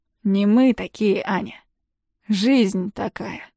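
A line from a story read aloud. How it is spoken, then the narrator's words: Weary reply. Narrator (Russian): устало отвечает Клим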